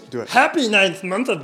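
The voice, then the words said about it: Yoda character voice. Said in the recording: “in my Yoda voice”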